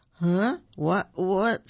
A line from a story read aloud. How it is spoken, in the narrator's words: said sleepily